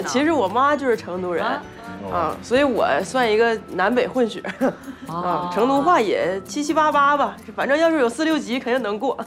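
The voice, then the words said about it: Northeastern Chinese accent. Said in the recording (Chinese): “听口音，你像东北人吧？ ... 你管这股叫没得口音啊？ ... 这我都收敛了”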